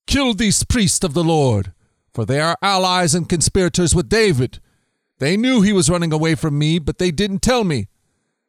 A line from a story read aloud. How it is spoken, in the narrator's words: the king shouted